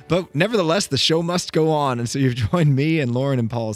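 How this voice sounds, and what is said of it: Hoarse, congested voice from cold. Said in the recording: “I'm fighting a head cold. If you can hear my voice, it sounds like I have a frog in my throat ... my voice is not good”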